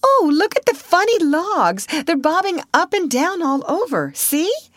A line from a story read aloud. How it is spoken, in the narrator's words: Alice suddenly she called out